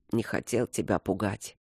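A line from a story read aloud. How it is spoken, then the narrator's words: Sleepy mumble. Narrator (Russian): пробормотал он, уже засыпая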